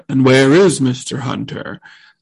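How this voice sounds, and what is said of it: Deep-voiced Mr. Feeny impression. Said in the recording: “Feeny deep voice impression ... It's not quite right”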